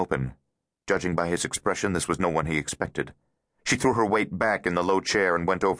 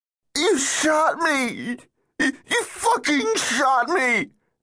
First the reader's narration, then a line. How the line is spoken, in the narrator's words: whined, squirming in pain